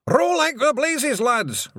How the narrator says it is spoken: Rob Anybody yelled

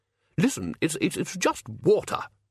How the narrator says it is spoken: snapped Ridcully

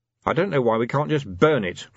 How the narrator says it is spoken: grumbled Vimes

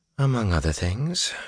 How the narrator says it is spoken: she mumbled

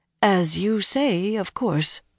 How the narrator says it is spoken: the woman murmured

